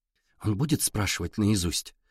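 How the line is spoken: Girl's quiet question. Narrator (Russian): тихо спросила девчонка

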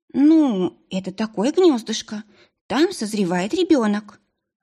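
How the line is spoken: Timid. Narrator (Russian): робко ответила Делла

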